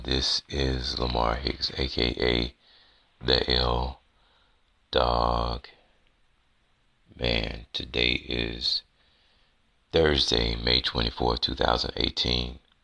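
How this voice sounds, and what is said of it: Tired-sounding voice. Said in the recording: “I sound a little tired this morning, it's because I actually am tired this morning”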